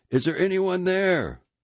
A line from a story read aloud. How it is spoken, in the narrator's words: Father Kleinsorge shouted several times